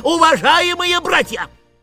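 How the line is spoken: Shouting at full strength. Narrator (Russian): не выдержав, крикнул, что было мочи

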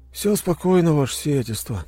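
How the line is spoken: Sleepy reply. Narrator (Russian): сонно ответил помощник

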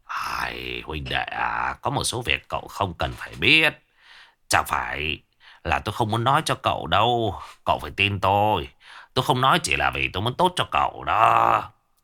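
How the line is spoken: Drunken mumble. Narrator (Vietnamese): đã chuẩn bị say, miệng anh ta lẩm bẩm

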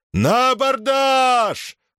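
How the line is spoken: Shouted battle cry. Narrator (Russian): закричал Юлий

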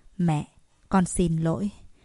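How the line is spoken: Hoarse, choked-up call. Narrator (Vietnamese): tiếng gọi khàn khàn nghẹn ngào của Kiều Huyền Thạc

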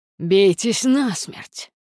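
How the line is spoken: Growling. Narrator (Russian): прорычал Аид

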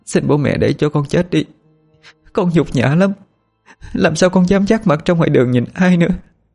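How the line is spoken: Tearful pleading. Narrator (Vietnamese): Cô khóc rồi van xin được chết

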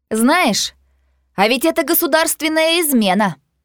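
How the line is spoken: Loud, shaking voice. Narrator (Russian): Громко произношу я, замечая, что меня начинает трясти

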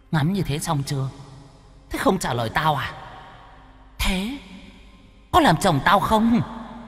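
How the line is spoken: Stern, pressed voice. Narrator (Vietnamese): Cô gái hỏi thêm vài câu, vẫn không thấy thằng Toàn trả lời, gằn giọng

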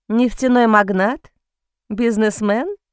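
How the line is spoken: Laughing. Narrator (Russian): Бастиан рассмеялся

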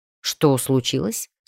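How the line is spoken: Plain. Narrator (Russian): спросил Артем

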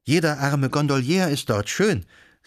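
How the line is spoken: Exclaiming. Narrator (German): rief sie aus

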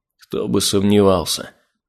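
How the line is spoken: King muttering. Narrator (Russian): пробормотал король

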